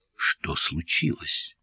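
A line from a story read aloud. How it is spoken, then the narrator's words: Quiet question. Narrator (Russian): тихо спросила Анна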